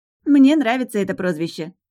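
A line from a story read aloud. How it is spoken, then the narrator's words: Snort. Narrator (Russian): хмыкнула Лина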